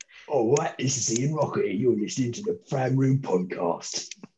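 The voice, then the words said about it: Thick Cockney accent. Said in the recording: “does a better Cockney voice ... can you in the really Cockney voice”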